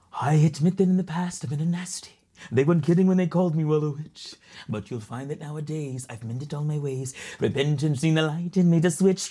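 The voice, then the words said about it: Imitates the sea witch Ursula. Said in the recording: “I'm the character voice. ... Ursula was my favorite ... Give us a little taste of Ursula.”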